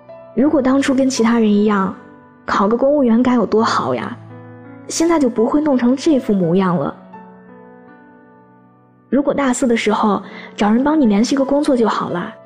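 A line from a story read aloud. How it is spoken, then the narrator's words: Many sighing, over phone. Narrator (Chinese): 电话那头，众人一边叹着气，一边说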